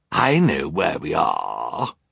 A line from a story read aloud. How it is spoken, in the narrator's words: Olaf sneered